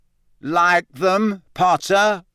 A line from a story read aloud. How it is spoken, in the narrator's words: said Malfoy loudly